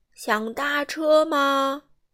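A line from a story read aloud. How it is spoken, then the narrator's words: Loud elephant call. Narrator (Chinese): 大象大声叫道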